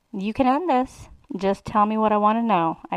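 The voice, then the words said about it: Seductive voice. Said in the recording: “in my most seductive voice.”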